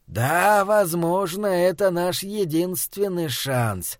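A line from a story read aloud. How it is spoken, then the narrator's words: Drawn out. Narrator (Russian): протянул Схал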